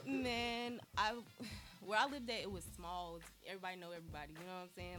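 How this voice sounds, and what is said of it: North Carolina Southern drawl. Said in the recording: “I heard the drawl. I heard the drawl. It was coming out too much ... you can never lose the accent”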